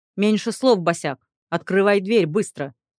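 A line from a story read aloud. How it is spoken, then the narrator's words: Displeased lord barking. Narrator (Russian): рявкнул недовольный лорд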